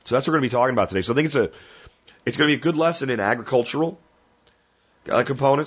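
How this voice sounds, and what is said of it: Strained, rough voice from a cold. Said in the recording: “my voice is really strained ... we got to go out the last week of the year with a rough voice”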